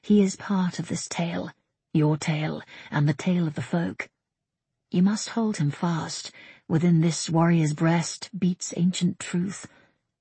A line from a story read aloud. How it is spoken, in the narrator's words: the spirit that whispered in her ear